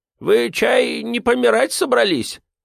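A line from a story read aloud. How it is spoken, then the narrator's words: Worried question. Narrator (Russian): обеспокоенно спросил он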